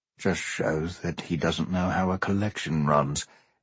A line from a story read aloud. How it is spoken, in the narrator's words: Adams murmured